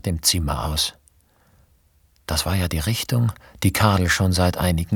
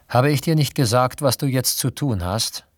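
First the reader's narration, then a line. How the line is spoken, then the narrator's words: Plain. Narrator (German): sagte Brunelda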